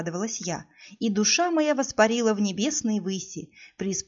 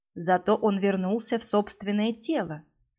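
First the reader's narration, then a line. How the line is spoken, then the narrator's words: Calm. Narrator (Russian): спокойно заключила Кассандра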